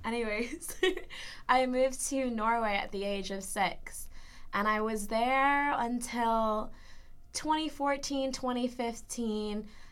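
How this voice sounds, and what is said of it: American West Coast accent. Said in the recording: “my gorgeous American accent ... West Coast”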